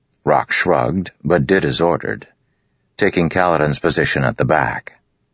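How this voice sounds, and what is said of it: Usual voice. Nothing is said of it.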